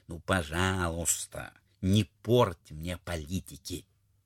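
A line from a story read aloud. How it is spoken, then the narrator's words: Quiet speech. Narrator (Russian): государь тихо сказал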